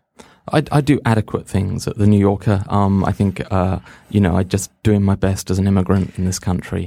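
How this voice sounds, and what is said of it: English accent. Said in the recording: “as we can tell from your accent, you're English.”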